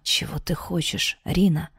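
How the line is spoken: Whisper. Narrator (Russian): прошептал Дарт

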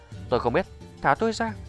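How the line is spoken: Frightened, hurried old man. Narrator (Vietnamese): Lão già lộ vẻ sợ hãi vội nói

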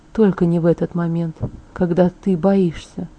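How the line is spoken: Whisper in the ear. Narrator (Russian): Он прошептал мне на ухо

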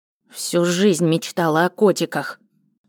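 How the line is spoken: Grumbling under breath. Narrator (Russian): бурчала она себе под нос, как старый дед

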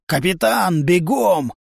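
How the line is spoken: Barked command. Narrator (Russian): рявкнул Хрёрик

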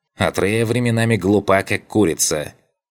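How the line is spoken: Grumbling old woman. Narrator (Russian): пробурчала старуха

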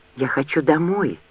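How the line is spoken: Whisper. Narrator (Russian): прошептала Лианна

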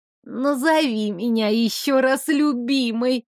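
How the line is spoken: Creaky old voice. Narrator (Russian): старческим голосом проскрипела

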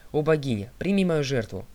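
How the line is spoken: Exclaimed. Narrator (Russian): он воскликнул

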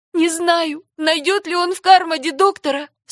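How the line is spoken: Sobbing. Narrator (Russian): всхлипнула Даяна

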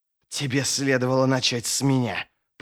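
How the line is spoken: Hissing. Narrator (Russian): прошипел противник

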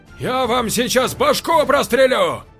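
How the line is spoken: Shout. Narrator (Russian): крикнул первый человек

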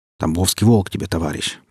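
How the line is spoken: Low grumble. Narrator (Russian): пробурчал саранча

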